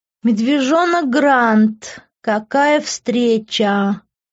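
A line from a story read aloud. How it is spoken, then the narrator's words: Drunken drawl. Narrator (Russian): пьяно протянул Лив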